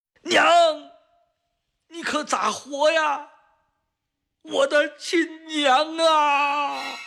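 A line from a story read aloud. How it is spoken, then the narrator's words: Desperate loud cry. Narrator (Chinese): 当被洪水吞没的最后一刻，万能脚拼命地 冲着他老家的方向大声呼喊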